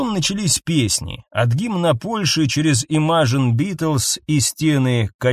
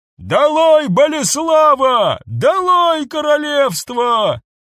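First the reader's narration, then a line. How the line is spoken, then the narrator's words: Man shouting through megaphone. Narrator (Russian): один из мужчин с мегафоном крикнул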